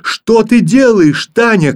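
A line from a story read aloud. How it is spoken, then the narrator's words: Frightened shout. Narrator (Russian): крикнул в испуге Филька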